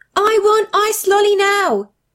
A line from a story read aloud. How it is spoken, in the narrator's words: he started screaming